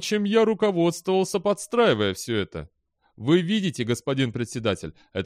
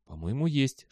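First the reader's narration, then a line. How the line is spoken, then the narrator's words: Whispered reply. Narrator (Russian): шепнул в ответ Белли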